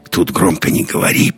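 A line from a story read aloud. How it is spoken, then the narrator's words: Whisper. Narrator (Russian): прошептал Андерс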